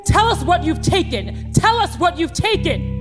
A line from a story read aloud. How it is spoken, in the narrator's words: they're shouting